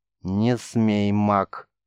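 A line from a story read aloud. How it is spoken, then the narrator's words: Barely audible, firm. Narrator (Russian): чуть слышно, но твердо произнесла Цера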